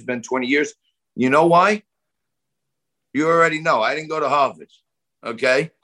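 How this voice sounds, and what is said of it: New York accent. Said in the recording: “I don't want to get rid of my New York accent.”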